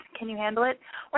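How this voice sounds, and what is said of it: Lowered sexy voice. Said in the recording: “Let's bring it down a notch. ... This is my sexy voice.”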